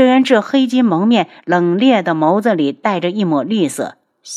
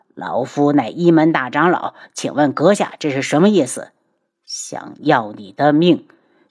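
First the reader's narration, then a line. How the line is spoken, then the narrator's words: Elder, cold voice. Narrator (Chinese): 大长老冷声道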